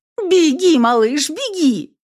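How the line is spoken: Frantic scream. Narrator (Russian): Заорала я, понукая пса сбежать, скрыться

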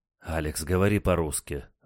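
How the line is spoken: Sighing. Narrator (Russian): вздохнул Николай

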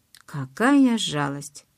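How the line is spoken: Mumbling. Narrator (Russian): промямлил

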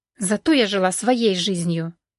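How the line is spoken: Through clenched teeth. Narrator (Russian): процедила Валерия

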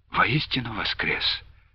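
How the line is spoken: Dejected, deflated voice. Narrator (Russian): упавшим голосом отозвалась

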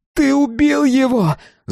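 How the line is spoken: Shouted. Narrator (Russian): закричала она

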